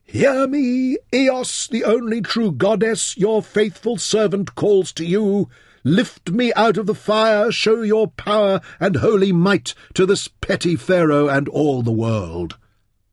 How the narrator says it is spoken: In the heart of the flames, Soe shouted to the cloudless sky

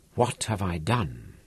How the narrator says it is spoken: whispered

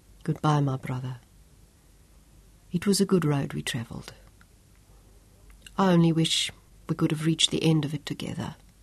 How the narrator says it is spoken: he said softly

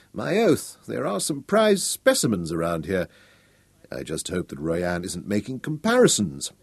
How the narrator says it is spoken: Nicholas muttered

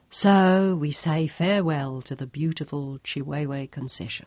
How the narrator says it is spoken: murmured

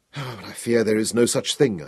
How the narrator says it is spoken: I sighed, my emotions bobbing and spinning like a piece of flotsam caught in the Nile flood

